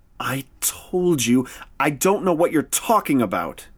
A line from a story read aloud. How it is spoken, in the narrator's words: spat